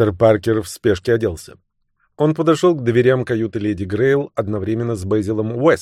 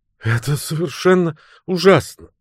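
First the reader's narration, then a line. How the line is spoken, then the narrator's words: Sobbing. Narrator (Russian): всхлипывала девушка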